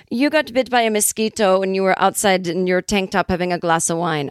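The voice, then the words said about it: Imitated transcontinental European accent. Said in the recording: “She has this kind of transcontinental European accent. I don't know what it is.”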